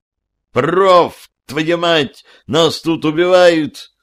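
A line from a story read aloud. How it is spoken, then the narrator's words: Shouting over the radio. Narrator (Russian): очнувшись от новостей, заорал я в эфир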